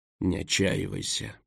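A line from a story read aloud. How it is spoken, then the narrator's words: Mutter. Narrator (Russian): пробормотал Дурайд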